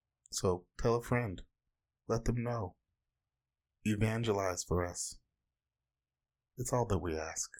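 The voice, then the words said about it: Odd, low radio-announcer-like voice. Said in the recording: “why do you sound so weird? ... I'm like a 1950s radio announcer right now ... we are real low key today. We're keeping it low”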